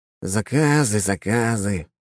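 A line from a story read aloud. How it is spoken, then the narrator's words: Weary sigh, artificer. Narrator (Russian): устало вздохнул артефактор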